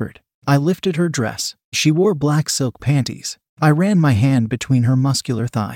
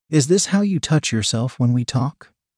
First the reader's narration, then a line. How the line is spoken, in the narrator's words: I asked